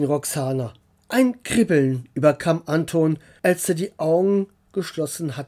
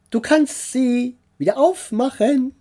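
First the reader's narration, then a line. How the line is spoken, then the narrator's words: Called out. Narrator (German): rief Roxana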